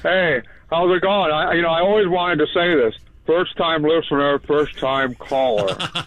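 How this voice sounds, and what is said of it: Imitates another person's voice. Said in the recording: “does a Mitch McConnell impression”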